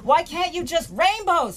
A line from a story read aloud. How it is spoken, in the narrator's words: he shouts